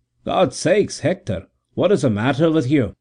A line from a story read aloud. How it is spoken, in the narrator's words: he exclaimed in alarm